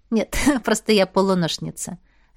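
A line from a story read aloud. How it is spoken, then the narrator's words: Laughing. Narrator (Russian): рассмеялась Машка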